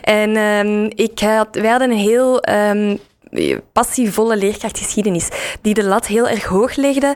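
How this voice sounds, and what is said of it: Flemish Brussels-periphery regional accent. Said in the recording (Dutch): “ik heb eh, zelf op school gezeten in Dilbeek, dus in de, in de rand rond Brussel. waar je ook hoort aan mijn accent.”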